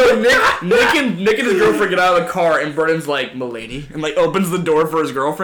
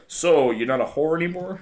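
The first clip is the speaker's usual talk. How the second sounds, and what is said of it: Judging dad character voice. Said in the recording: “I just get my dad voice going”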